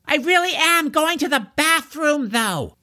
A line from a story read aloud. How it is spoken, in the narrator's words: George shouted toward Deirdre's cell